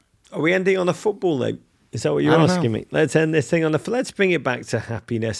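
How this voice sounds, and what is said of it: English accent. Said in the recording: “my English accent ... do not let my accent”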